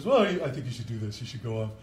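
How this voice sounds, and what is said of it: Impression of Adam Small. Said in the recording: “Is this a good impersonation of Adam Small or what?”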